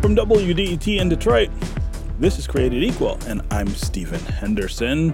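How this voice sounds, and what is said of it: Announcer-style radio voice. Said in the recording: “It's my radio voice.... It's your radio voice.”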